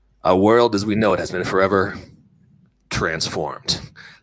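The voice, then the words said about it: Announcer-style radio voice. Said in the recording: “I'm going into my radio voice.”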